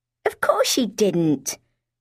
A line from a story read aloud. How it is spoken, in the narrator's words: Porcelain scoffed